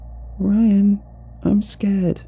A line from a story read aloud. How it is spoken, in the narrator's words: whimpered